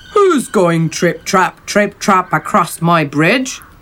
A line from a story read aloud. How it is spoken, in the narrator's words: roared the troll